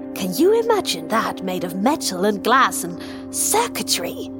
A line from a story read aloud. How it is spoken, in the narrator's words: He almost spat the last word